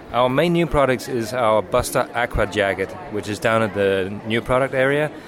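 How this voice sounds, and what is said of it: Muddled Danish accent. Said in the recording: “I hear an accent ... That funny accent is muddled. It's Danish, but I spent a lot of time over here”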